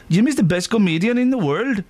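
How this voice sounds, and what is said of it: Attempted Welsh accent. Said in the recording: “What's a Welsh accent?”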